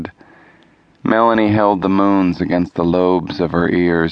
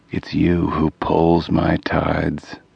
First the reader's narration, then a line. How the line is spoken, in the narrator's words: murmured